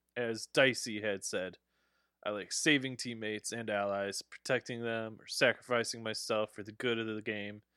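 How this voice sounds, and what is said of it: Announcer-style voice. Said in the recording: “This announcer voice, man. Oh my God.”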